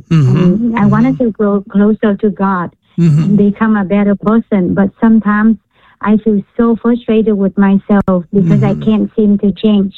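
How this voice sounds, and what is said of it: Vietnamese accent. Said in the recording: “Are you Vietnamese? ... You can tell by my accent.”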